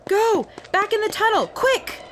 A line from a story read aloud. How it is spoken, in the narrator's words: a girl came running at us yelling